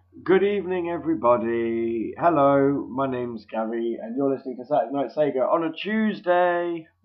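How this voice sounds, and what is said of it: Sick, congested voice. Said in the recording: “As you can probably tell by my voice, I'm not feeling too good... managed to get a cold”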